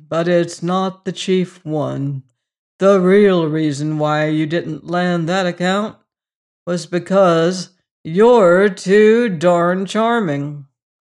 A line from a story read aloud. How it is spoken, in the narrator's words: drawled the old man grimly